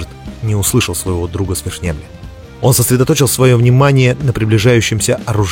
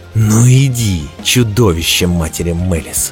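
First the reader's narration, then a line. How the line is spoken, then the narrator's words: Growled. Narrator (Russian): прорычал Дзирт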